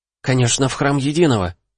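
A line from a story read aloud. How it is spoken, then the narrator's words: Exclaimed in unison. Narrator (Russian): в один голос воскликнули Кайя свистой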